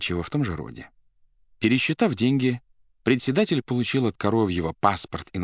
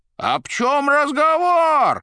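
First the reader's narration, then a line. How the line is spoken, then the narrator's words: Roar. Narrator (Russian): взревел Коровьев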